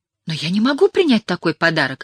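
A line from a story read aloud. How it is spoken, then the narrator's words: Torn, conflicted exclamation. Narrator (Russian): воскликнула, терзаясь душевными противоречиями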